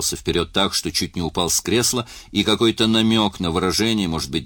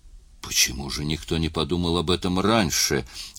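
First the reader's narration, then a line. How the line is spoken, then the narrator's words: Whisper. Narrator (Russian): прошептал Л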